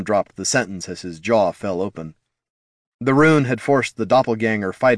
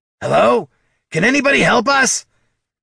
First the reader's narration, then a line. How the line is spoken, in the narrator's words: Bert's shout was more of a throaty whisper or a hushed yell